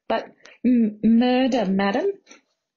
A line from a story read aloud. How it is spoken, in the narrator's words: Margot stuttered